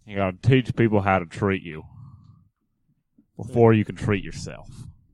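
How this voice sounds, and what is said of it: Low Texan-drawl Dr. Phil impression. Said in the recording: “Dr. Phil... He has a really low voice... You have a good low. A little more drawl. A little more drawl... A little Texan boy.”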